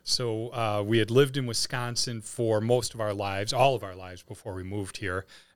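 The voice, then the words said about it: Wisconsin accent with distinctive O vowels. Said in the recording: “those O's? Obviously not from St. Charles or the St. Louis area. ... that accent that you're speaking with”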